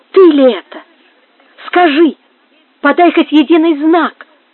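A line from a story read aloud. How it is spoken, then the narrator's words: Exclaiming. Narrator (Russian): воскликнула она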